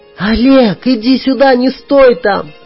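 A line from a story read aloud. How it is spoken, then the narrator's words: Shouting. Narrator (Russian): кричала Танюшка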